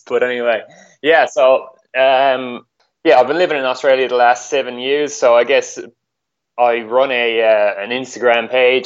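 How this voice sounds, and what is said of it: Irish accent with slight Australian twang. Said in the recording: “I'm actually Irish ... I'm after getting a bit of a twang since I moved here”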